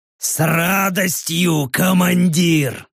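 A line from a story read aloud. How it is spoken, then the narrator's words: Gurgling euphoric orc growl. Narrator (Russian): Чуть ли не булькая от переполняющей его кровавой эйфории, прорычал орк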